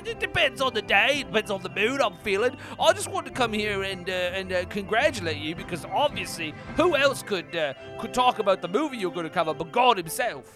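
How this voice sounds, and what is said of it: Put-on lower-class English accent. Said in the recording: “don't mind the accent. I use many accents so they flip and flop and fly all over the place ... I would interpret God as a lower-class Englishman”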